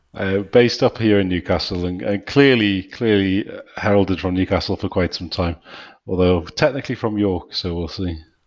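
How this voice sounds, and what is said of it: Soft northeastern English accent. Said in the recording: “another delightful northeastern accent ... You've got a very nice, soft accent.”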